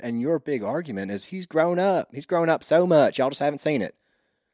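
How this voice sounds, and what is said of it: Mild Southern US twang. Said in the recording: “my southern accent... It's really good... I used to have more of a twang than I do now. It's actually mellowed out.”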